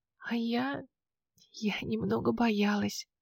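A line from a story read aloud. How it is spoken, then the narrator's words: Whispered confession. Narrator (Russian): призналась я шепотом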